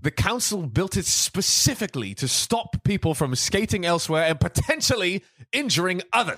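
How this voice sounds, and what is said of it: Posh British Queen's English accent. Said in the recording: “this British accent is like the literate ... book ... one ... super posh ... speaking the Queen's English ... the proper English”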